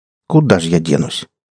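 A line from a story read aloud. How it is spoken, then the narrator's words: Sighing. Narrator (Russian): Саня вздохнул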